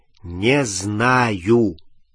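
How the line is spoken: Drawled. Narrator (Russian): протянул Рон

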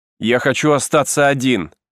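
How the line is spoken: Piercing cry. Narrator (Russian): пронзительно вскрикнул

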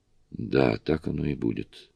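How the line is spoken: Tired agreement. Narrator (Russian): устало согласилась Сьюзи

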